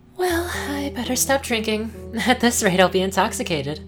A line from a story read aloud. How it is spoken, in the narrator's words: I chuckled